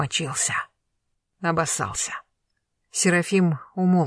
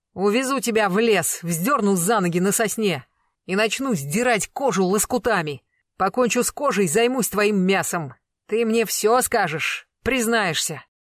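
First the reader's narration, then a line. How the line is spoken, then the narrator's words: Sudden yell. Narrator (Russian): заорал вдруг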